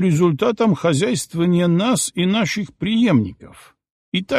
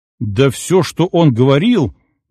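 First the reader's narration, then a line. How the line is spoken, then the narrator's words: Indignant. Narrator (Russian): возмущенно начал Киров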